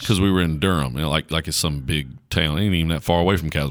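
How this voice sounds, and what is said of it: Country Southern American accent. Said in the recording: “you need to change your accent. You sound too country.”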